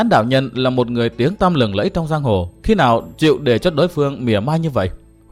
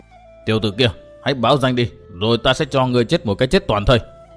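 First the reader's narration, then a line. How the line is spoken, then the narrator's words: Muttered threat. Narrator (Vietnamese): Tam Nhãn Đạo Nhân lầm bầm nói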